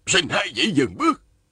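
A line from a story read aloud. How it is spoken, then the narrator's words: Sudden call. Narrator (Vietnamese): Động Quyền đột nhiên la lên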